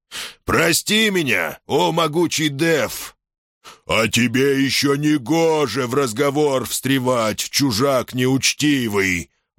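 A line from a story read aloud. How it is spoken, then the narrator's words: Furious monster's trumpeting roar. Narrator (Russian): взревел трубными голосами в очередной раз взъярившийся монстр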